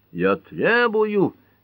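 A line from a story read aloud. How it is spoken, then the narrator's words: Indignant roar. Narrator (Russian): негодующе взревел судья Мартин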